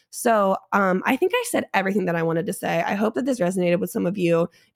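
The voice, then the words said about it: Hoarse, fading voice. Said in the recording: “I'm losing my voice because, hey, I did just have COVID.”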